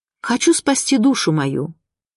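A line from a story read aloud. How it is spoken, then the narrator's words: Plain. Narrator (Russian): говорит ей святая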